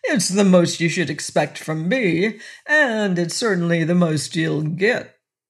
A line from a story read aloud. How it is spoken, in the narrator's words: answered with a suggestion of defiance and more than a suggestion of sneer